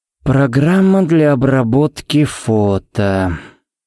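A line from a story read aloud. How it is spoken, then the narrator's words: Drawling. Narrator (Russian): протянул Харри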